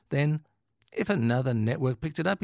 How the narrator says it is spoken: says earnestly

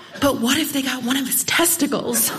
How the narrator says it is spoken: she whispers

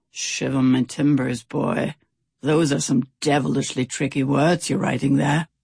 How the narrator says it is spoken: Stout Sam had watched him full of admiration and growled

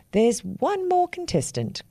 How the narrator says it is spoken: cried the big black crow

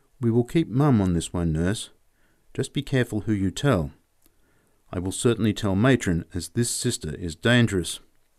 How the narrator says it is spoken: whispered

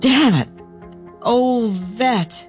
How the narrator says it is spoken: cried

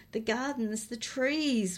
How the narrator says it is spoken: Willow moaned

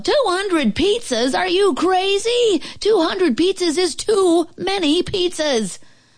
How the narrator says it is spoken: The lady at the restaurant yelled

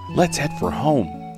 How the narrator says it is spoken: Laza whispered

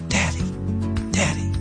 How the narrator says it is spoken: a little voice that was whispering

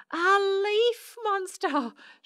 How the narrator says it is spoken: shrieked Susan and Shirley

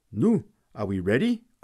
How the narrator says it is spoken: cried Fritz

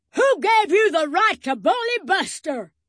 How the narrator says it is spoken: boomed the biggest dog

